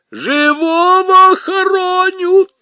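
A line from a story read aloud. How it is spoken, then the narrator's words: Woman wailing. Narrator (Russian): завопила все та же женщина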